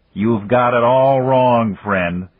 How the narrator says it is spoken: Randolph's voice boomed from the loudspeakers in the ceiling

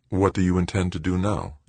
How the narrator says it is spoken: Joanna asked calmly

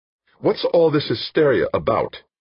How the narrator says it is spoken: snapped

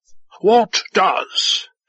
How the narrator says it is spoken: the commander said sharply

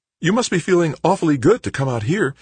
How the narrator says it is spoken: Ree said cheerfully

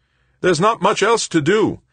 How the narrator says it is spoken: Anson replied, her voice raised to be heard over the thumping beat of the music

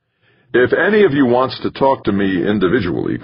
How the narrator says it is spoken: Carlton said

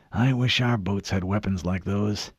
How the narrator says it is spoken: he whispered

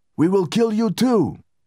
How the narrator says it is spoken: People in the back of the crowd shouted at the Saudis

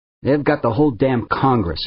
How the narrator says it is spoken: his father grumbled

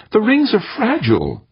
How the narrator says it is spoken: Wonderly said earnestly

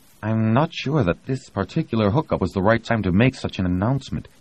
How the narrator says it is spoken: Todd said timidly

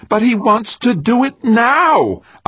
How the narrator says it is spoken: Isaacs repeated, his voice rising half an octave

